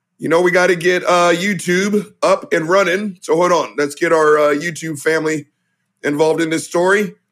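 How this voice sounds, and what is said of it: Voice still recovering, not fully normal. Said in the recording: “You can tell my voice is still in recovery mode”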